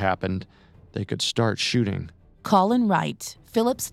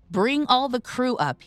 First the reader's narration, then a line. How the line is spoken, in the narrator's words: screamed